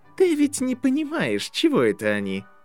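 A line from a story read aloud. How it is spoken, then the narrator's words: Cheerful question. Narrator (Russian): весело поинтересовался Драко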